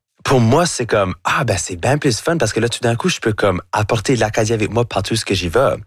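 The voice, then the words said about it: Acadian French accent. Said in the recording (French): “votre accent acadien ... j'ai un accent qui va jamais être neutre ... avec mon accent, avec mon chiac”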